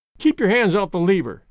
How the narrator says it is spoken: snapped the elevator boy

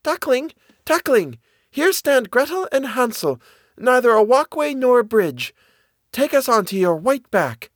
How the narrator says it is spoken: she called out

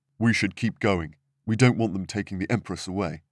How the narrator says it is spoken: he said

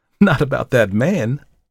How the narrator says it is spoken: she laughed

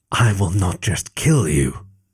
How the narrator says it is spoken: whispered, his voice a heavy thing, gravid with intent, tight with promise, like a thunderstorm about to burst

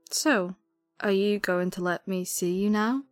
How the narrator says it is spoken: she said with a small laugh

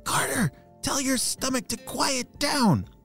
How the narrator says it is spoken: whispered Ayva

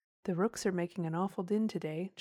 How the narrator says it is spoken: James said

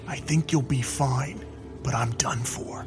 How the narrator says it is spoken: Sarge whispered

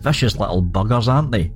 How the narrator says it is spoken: Horace chuckled

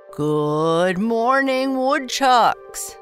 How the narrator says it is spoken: boomed Principal Burke

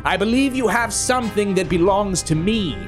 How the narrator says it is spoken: Podesta sneered

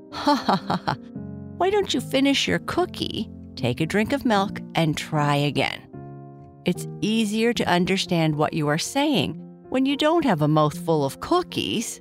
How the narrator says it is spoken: Papa Bear said, laughing

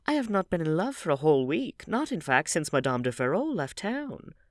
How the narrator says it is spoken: murmured Dorian, smiling

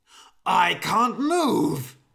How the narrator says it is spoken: shouted the old man

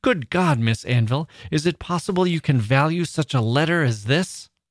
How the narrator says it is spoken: in a passionate manner, exclaimed

